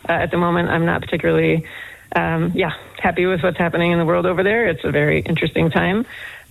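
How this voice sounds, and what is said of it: American accent, mild Boston. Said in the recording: “you can still detect that American accent ... I don't have the park the car and have it yard kind of thing, but yes, I definitely still sound American”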